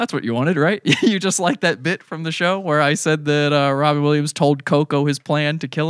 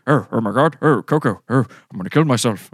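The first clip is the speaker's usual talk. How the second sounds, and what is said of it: Imitates another person's voice. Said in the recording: “do a Robin Williams voice”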